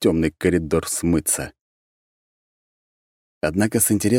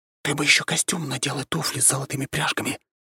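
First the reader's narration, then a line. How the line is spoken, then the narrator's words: Whisper. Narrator (Russian): шепотом сказал я ему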